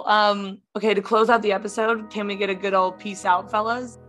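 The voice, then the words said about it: Hoarse, nearly lost voice. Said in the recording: “my voice is gone. So this is good because I can't talk.”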